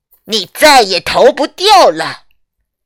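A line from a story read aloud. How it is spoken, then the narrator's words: Menacing threat. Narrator (Chinese): 先前那两个可怕的声音威胁着说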